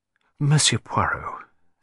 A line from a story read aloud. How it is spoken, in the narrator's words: said the lady in a soft, musical voice